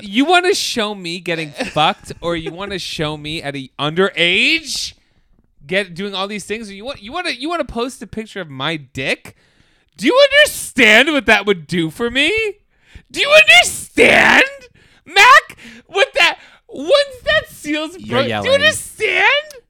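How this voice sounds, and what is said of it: Angry yelling. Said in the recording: “You're yelling.”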